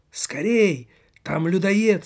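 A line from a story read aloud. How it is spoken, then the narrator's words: Shouted. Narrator (Russian): закричал полицейский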